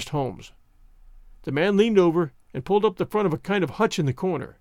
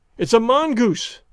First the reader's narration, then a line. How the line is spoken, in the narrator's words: I cried